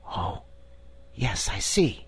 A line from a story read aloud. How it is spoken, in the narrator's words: whispered Diamond